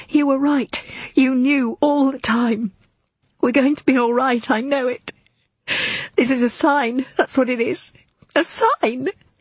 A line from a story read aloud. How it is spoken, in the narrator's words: Sobbing, she says